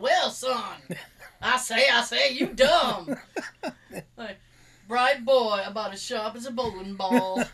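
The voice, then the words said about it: Foghorn Leghorn cartoon voice. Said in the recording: “It's like he's trying to do Foghorn Leghorn ... these little Foghorn Leghorn-isms”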